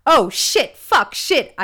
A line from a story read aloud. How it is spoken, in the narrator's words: I yelled at the top of my lungs